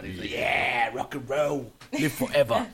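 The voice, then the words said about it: Put-on British accent. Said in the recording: “You like that little British accent? ... That was good. It was good.”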